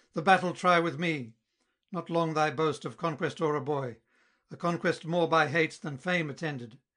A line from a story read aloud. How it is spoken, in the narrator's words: Grieved to behold the last expiring breath of Attis parting from the furious wound, cried